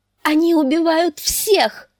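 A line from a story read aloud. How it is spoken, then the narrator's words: Shrieked. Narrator (Russian): взвизгнула дочь стюарда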